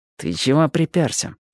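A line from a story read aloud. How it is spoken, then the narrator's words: Through clenched teeth. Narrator (Russian): процедила она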